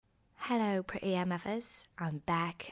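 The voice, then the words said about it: Put-on British accent. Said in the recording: “I'm British ... We've had 2 weeks of me doing no British accent.”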